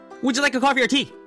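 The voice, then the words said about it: Very fast speech. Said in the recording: “said it so fast”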